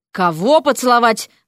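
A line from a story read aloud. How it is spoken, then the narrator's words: Barked. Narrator (Russian): рявкнул Эрик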